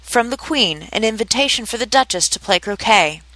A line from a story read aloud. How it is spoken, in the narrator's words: The frog footman repeated, in the same sullen tone